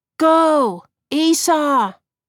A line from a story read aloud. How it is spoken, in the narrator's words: Andrew yelled